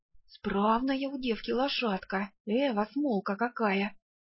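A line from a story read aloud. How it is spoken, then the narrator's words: Whispering behind back. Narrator (Russian): перешептывались у меня за спиной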